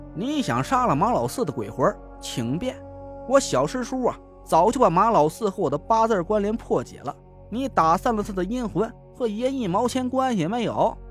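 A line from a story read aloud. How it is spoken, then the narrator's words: Sneering. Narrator (Chinese): 潘笑嗤笑了一声，说道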